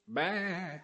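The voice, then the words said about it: Imitates a sheep bleating. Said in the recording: “That's the best sheep impression I can do”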